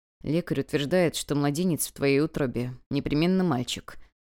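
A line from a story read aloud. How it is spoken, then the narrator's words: Quiet, muffled man. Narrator (Russian): Хунли уткнулся в плечо супруги и тихо сказал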